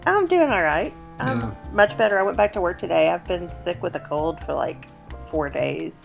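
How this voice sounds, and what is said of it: Slightly raspy, hoarse voice. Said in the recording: “I'm sort of half losing my voice, so if I sound a little, if I sound a little raspy, it's because I kind of am.”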